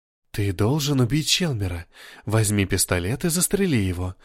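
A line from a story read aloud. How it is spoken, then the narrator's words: Whispered in ear. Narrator (Russian): шептала на ухо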